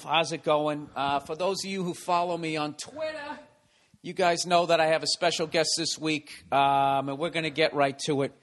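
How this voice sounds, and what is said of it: Boston accent. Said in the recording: “your accent, P-A-W-D, cast. ... that's the Boston accent.”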